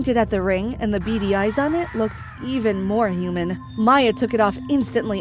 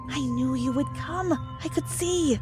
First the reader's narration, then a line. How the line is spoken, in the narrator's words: I heard him whisper